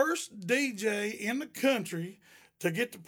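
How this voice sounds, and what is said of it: Usual voice. Nothing is said of it.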